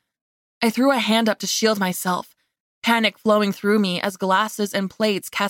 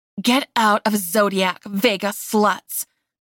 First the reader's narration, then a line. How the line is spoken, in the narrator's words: Marguerite spat